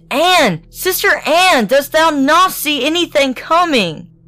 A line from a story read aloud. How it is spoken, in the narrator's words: she exclaimed